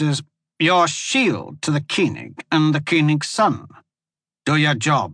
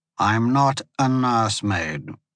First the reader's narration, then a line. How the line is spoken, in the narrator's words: the Instaria replied, keeping his tone even but cold